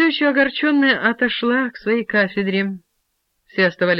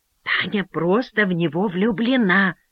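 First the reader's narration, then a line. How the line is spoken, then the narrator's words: Whisper. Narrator (Russian): сказала она шепотом Фильке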